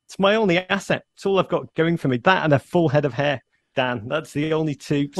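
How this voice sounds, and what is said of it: Northern English accent. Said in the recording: “you'd lose the accent ... I still sound like I'm, you know, ripped from the north of England”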